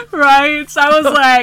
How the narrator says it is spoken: I screamed

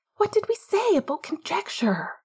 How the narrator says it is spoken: Marlene hisses through gritted teeth

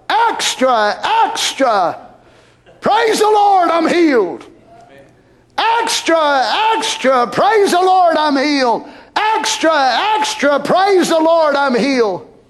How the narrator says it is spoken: He would holler

